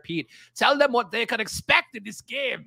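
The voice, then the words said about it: Put-on German accent. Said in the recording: “That's my German accent. ... What was that German accent? ... It's a melting pot of accents here.”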